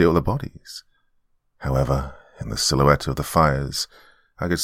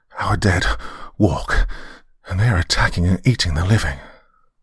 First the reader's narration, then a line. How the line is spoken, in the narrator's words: he gasped